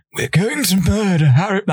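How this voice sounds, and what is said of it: Poor imitation of villain's voice. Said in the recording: “my terrible Voldemort impression”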